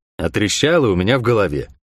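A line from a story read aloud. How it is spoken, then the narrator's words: Gloomy reply. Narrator (Russian): мрачно отозвался я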